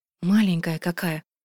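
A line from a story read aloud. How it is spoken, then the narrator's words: Muttered. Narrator (Russian): пробормотала Асин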